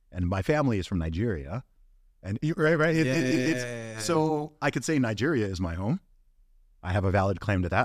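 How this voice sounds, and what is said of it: American accent. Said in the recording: “why do you sound American? ... you sound American”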